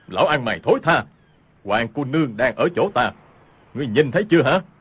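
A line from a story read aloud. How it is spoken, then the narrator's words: Loud shout. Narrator (Vietnamese): cao giọng quát lên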